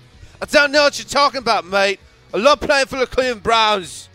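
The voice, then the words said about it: Bad put-on British accent. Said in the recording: “probably the worst British accent I've ever heard.”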